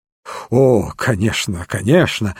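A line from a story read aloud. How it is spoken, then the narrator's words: Relieved sigh. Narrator (Russian): ответил мистер Бейкер, облегченно вздохнув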